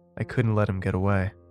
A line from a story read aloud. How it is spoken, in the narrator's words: she said coldly